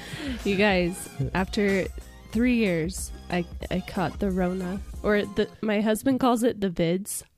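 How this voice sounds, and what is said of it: Raspy, hoarse voice. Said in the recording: “Does my voice sound different?... Yes, it does... It's got that that sexy COVID rasp.”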